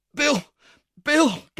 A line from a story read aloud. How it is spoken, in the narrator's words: gasped the girl, wrestling with the strength of mortal fear